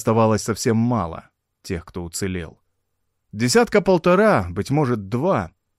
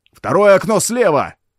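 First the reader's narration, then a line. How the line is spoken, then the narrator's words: Shouted. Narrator (Russian): крикнул француз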